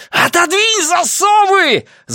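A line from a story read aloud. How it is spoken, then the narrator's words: Shrieked. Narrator (Russian): завизжал я на Диану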